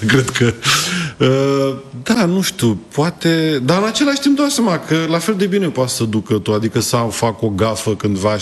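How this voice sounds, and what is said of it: Moldovan-tinged regional Romanian accent. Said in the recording (Romanian): “Ți-ai păstrat accentul, n-a plecat cu totul. ... Și este un farmec ... asta cu accentul în Buzău ... partea Moldovei”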